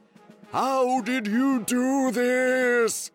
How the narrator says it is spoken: yelled

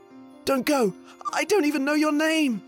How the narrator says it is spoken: shouted the prince

